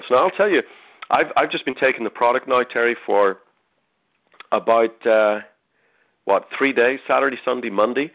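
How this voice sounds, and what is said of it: Voice affected by a head cold. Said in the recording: “you can probably hear it in my voice a little bit. I've been fighting a pretty brutal head and chest cold”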